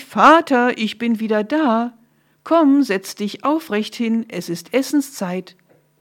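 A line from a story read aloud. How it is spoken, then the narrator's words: Cheerful call. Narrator (German): Esau rief ganz fröhlich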